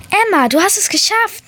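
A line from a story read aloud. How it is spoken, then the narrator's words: Gull calling. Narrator (German): rief meine erste Letra-Möwe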